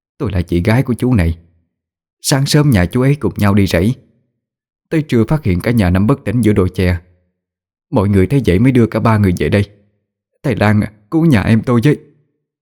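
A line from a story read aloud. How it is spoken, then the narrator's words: Middle-aged woman crying. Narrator (Vietnamese): Người phụ nữ độ tuổi tứ tuần khóc lóc lên tiếng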